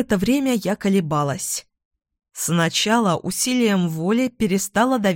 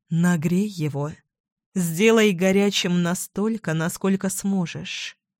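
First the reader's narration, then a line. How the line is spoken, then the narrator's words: Whisper. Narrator (Russian): Риспи прошептала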